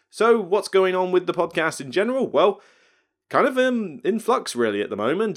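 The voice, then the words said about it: English Somerset accent. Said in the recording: “my dodgy UK accent and Somerset accent at that”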